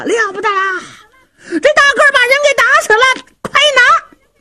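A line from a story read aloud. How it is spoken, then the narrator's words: Thugs shouting. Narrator (Chinese): 这些恶奴可就喊上了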